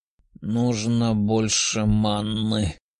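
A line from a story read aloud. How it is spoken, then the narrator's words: Pained young man hissing. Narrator (Russian): прошипел парень, чье левое легкое горело огнем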